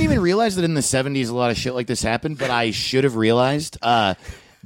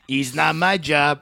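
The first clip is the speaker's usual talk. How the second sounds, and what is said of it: Put-on accent for a TV catchphrase. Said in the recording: “I'm sorry I'm doing that accent.”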